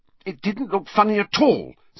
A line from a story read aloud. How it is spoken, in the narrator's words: said Hermione hotly